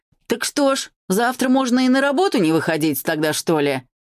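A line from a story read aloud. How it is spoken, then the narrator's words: Shouted out. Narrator (Russian): выкрикнул кто-то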